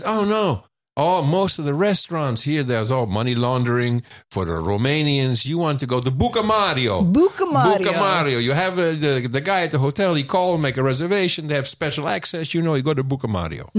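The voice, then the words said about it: Imitates a local man's accent. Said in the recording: “Did I do his accent? ... Did I nail it there?”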